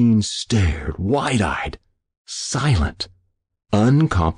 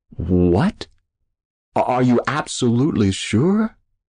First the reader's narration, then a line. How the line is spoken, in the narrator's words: He finally stammered